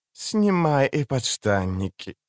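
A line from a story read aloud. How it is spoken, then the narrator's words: Sultry rasp. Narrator (Russian): сексуально прохрипела маркиза Данемен Суивер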